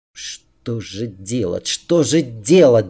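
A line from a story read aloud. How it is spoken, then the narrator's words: Muttering under breath. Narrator (Russian): Забормотал себе под нос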